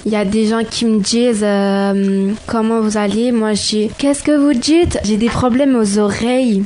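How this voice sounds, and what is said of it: Put-on Marseille accent. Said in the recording (French): “L'accent marseillais”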